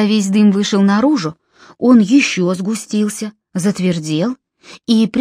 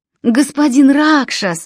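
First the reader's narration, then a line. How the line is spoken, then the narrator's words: Relieved exhale, two voices. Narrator (Russian): выдохнули близнецы с явным облегчением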